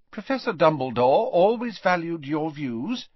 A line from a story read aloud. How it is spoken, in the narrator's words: said Professor McGonagall kindly